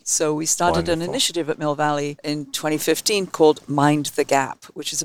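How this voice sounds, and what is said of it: English accent. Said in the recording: “your amazing accent ... Where in England are you from?”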